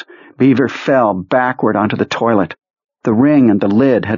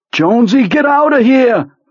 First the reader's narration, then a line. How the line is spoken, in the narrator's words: Beaver shouted